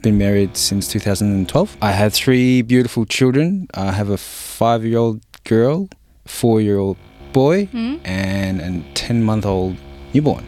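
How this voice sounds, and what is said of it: Strong Australian accent. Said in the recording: “I was educated here, hence my real strong accent.”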